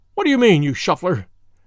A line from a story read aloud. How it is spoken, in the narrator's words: panted the fire-eating poet